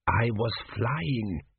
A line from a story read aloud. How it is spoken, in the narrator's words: whispered